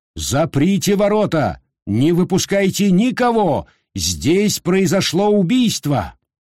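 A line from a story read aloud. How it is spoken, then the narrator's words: Loud shout. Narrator (Russian): громко крикнул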